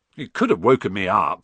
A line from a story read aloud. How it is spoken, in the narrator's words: said Ron, crossly